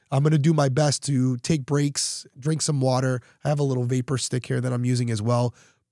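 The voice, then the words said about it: Raspy, under-the-weather voice. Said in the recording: “sometimes you got to go to work when you're a little under the weather ... my voice is a little raspy”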